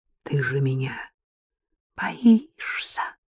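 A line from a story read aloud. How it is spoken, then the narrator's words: Whisper. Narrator (Russian): прошептала Маша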